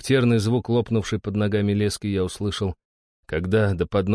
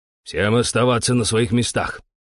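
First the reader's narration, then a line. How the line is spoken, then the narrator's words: Curt bark. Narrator (Russian): коротко рявкнул шкипер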